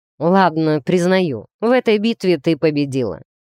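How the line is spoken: Grumbling. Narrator (Russian): пробурчал он

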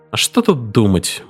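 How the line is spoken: Grumbling mutter. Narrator (Russian): буркнул Айвс

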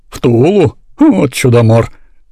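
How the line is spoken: Laughing conductor. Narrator (Russian): рассмеялся кондуктор

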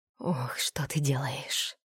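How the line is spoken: Muttering. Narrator (Russian): пробормотал Лин

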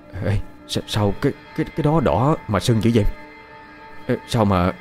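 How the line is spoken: Frightened stammering. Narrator (Vietnamese): thằng Đinh gia nhân nó tái mặt, giọng lắp bắp

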